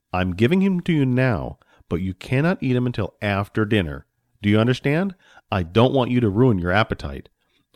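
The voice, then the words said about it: Stern fatherly character voice. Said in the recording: “the man said in a stern voice”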